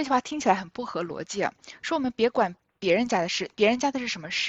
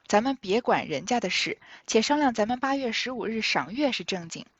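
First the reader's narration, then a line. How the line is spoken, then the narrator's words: Sighing. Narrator (Chinese): 贾母她叹道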